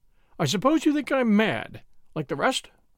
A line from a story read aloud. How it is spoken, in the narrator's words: cried Cray, with wild eyes